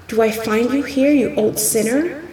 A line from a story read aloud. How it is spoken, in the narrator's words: said he